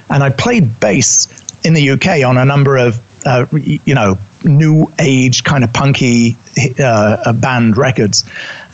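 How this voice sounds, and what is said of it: British accent. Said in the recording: “You can tell by my accent, I'm originally British.”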